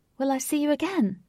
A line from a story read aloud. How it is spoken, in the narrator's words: She shouted, which echoed around the lake